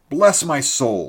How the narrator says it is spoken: he cried with a comic look of astonishment and vexation

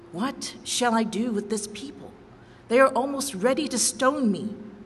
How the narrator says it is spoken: Moses cried to the Lord

